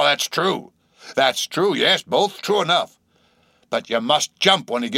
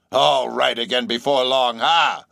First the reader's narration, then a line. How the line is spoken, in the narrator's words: laughed the stranger, with a solemnly derisive sort of laugh